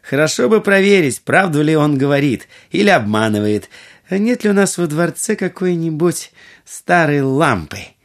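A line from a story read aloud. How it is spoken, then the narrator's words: Laughing, then speaking. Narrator (Russian): Будур рассмеялась и сказала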